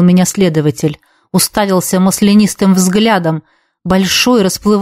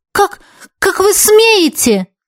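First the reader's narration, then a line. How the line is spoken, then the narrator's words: Exclaimed reply. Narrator (Russian): воскликнула я в ответ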